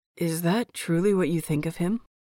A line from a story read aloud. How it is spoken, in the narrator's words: Lan Zijui questions, his voice low and calm, yet somehow more intense because of it